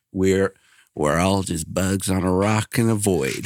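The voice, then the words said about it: Imitates another person's voice. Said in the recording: “my best Matthew McConaughey impression ... I was going to read that in a Matthew McConaughey voice ... That was pretty good.”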